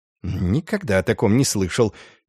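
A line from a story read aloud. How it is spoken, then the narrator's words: Displeased muttering. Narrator (Russian): недовольно пробормотал толстяк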